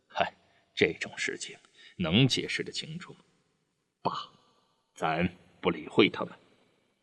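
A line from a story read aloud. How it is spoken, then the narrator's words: Wry laugh. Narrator (Chinese): 德武苦笑了一下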